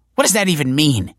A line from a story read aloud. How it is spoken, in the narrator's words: She snapped